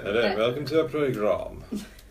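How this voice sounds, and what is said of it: Put-on Received Pronunciation English accent. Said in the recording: “An RP accent? ... Received pronunciation ... You mean it talks like this?”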